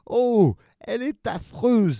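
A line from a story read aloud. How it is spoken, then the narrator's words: Delighted exclamation. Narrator (French): s'écrièrent Monsieur et Madame Monstre, tout à fait ravis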